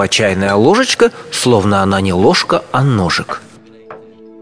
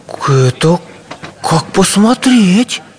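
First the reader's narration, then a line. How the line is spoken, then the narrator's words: Timid objection. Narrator (Russian): робко возразил чайный пакетик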